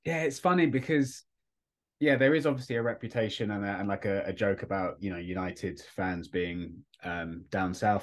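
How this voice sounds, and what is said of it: South East English accent. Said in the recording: “South East England accent”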